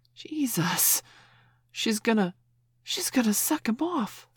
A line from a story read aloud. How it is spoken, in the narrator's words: someone gasped